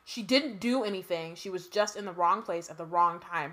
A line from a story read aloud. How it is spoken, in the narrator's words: Hermione snapped at Percy